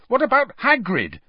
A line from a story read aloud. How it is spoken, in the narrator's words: Harry said angrily